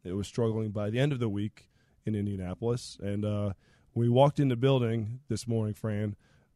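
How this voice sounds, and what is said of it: Strained, hoarse voice. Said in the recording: “as you can all tell, my voice is struggling already... sore throat, lack of a voice”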